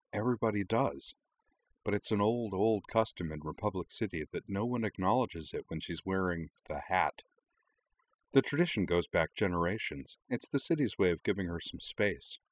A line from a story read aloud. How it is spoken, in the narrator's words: Nima leaned smilingly over and explained quietly